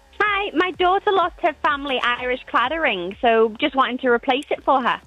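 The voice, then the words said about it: Irish accent. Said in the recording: “that Irish accent”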